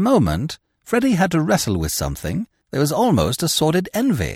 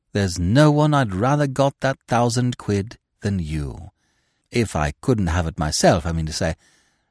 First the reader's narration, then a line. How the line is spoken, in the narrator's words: he murmured